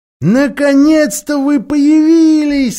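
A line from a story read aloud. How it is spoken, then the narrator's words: Exclaiming. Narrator (Russian): воскликнула она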